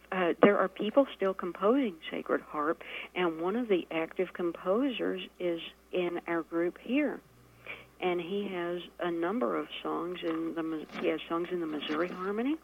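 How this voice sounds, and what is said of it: Distinctive regional accent, breathy speech. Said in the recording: “You're breaking out that accent there, doll. ... I love that accent. That accent is so special. ... I don't say it with that wonderful breath that you have.”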